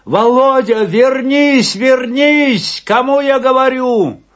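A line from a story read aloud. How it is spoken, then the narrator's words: Shouting. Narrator (Russian): закричал Афанасий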